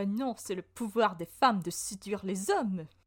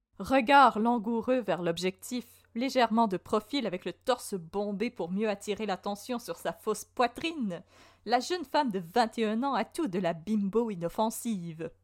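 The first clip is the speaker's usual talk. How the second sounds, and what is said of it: Put-on magazine-style reading accent. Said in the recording (French): “C'est le pari match, je devais prendre cet accent, bien entendu.”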